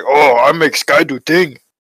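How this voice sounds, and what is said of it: Caveman voice. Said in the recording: “Caveman. Ooga booga, caveman.”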